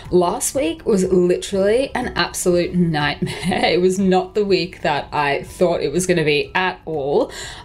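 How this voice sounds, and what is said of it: Croaky, hoarse voice. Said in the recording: “my voice is just a little bit croakier than usual”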